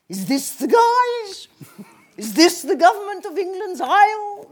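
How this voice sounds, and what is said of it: Theatrical French accent impression. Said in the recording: “that French accent for Margaret of Anjou ... it was all woo”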